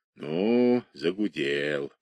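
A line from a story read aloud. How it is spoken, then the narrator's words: Grumbling. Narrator (Russian): проворчал Зотов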